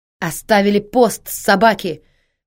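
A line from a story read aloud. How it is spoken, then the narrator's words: Frantic scream. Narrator (Russian): Последний часовой истошно вопит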